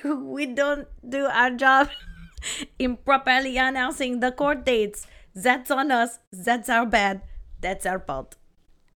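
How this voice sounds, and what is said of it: Put-on French accent. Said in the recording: “giving him a French accent... Was it good? I thought it was pretty good.”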